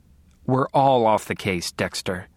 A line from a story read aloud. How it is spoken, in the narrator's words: Deb said, her voice as tired as I felt